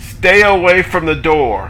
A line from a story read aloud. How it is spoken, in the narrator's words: The soldiers yell out a warning